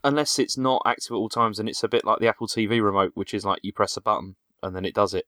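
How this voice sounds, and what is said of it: Heavy broad accent. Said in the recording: “it must be my heavy accent ... Very broad accent you got there.”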